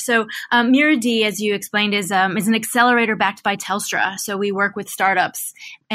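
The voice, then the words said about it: American accent. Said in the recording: “Having come from the US and Silicon Valley, ergo my accent”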